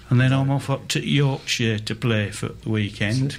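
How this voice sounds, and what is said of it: Poor put-on northern English accent. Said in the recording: “With apologies to everybody from up north for that terrible accent ... They're not all from the West Indies up there”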